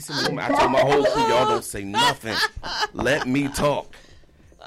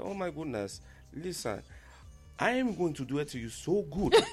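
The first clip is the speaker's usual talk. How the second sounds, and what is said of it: Put-on African accent. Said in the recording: “I did like an African accent”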